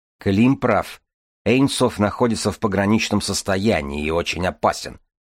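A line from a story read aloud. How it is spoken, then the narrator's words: Plain. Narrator (Russian): сказал Ромашин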